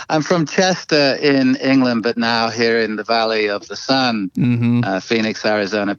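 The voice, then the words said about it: English accent. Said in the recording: “I'm originally from England, so they're not going to have a West Texas accent”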